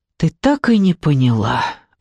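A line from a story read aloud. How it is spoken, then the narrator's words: Sigh. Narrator (Russian): вздохнула Алина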